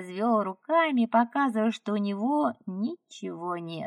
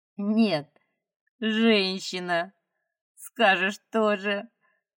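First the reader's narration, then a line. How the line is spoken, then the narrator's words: Laughing. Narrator (Russian): рассмеялся Хавьер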